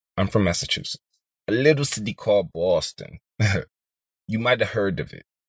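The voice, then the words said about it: Poor put-on Boston accent. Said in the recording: “That was a terrible accent”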